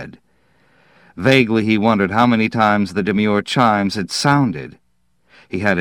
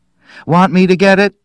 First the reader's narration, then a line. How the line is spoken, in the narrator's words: Faye called brightly from the kitchen